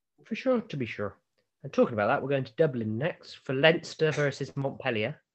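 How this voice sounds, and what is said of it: Put-on Dublin Irish accent. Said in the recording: “Is that a Dublin accent, was it? ... Yeah, definitely.”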